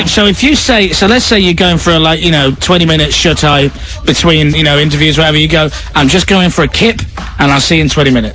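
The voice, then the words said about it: Northern English accent. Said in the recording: “a kind of northern accent like I do”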